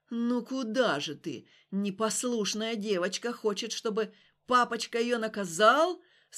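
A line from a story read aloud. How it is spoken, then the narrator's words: Through gritted teeth. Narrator (Russian): Сквозь зубы процедил Глухов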